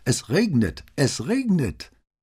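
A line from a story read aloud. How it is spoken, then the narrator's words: Exuberant loud shouting. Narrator (German): Ausgelassen wie Kinder, die man vorzeitig aus der Schule gelassen hat, riefen sie laut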